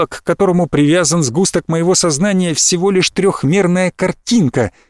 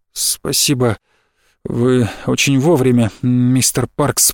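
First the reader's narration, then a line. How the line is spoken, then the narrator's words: Breathless mutter. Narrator (Russian): пробормотал я, глотая воздух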